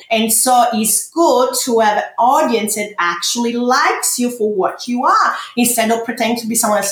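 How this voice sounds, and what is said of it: Heavy foreign accent. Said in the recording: “I have a bad, heavy accent.”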